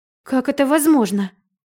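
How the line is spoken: Exclaimed. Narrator (Russian): воскликнула Райна

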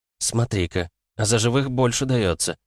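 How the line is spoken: Calm tone. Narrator (Russian): спокойным тоном произнесла она

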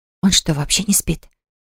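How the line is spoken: Soft whisper. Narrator (Russian): тихонько прошептала Кира

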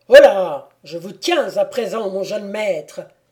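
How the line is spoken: Terrible shouting voice. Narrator (French): s'écria d'une voix terrible le comte Maximilien

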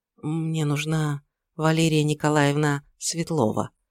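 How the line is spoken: Quiet, almost ingratiating. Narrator (Russian): тихо и почти вкрадчиво проговорил вошедший

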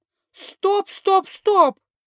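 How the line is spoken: Mouse squeaking from somewhere. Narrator (Russian): запищал откуда-то мышь

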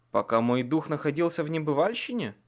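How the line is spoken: Plain. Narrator (Russian): спросил

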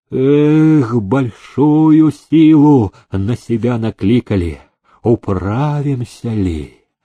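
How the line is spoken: Groaned. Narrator (Russian): Он простонал

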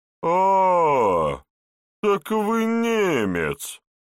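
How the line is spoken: Drawled. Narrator (Russian): протянул возчик

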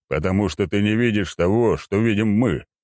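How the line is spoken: Wry grunt. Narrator (Russian): хмыкнул генерал

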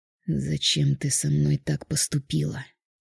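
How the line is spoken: Barely audible, tense. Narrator (Russian): Сжав кулаки, едва слышно произнес

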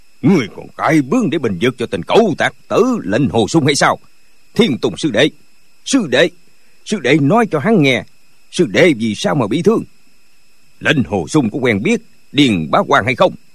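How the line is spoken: Angry shout. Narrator (Vietnamese): Thiên Môn đạo nhân giận dữ quát lên

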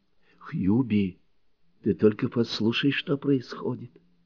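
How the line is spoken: Whispering. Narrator (Russian): зашептала Нонни

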